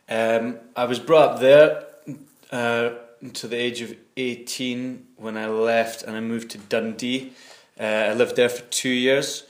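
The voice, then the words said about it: Clear Scottish Nairnshire accent. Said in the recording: “my accent's heavily influenced by the Nairnshire kind of accent. We still have a rhotic R. It's not as heavy as you hear in kind of Glasgow accent. It's still there, and the dark L that you hear in Scottish accents. It's a relatively clear accent”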